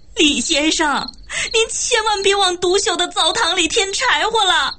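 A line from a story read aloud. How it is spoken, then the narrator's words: Near tears. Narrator (Chinese): 高君曼差点哭出来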